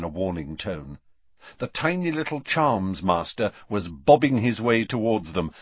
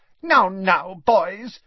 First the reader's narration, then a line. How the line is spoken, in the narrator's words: squeaked Professor Flitwick reproachfully